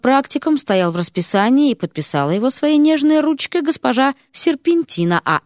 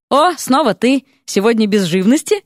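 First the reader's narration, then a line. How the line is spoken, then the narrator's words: Amused snort. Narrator (Russian): хмыкнул возница амнибуса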